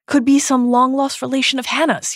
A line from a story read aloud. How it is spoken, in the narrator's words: he shouts